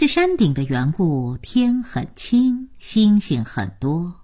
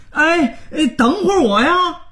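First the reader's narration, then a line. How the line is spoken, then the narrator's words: Hurried shout. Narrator (Chinese): 他……连忙大喊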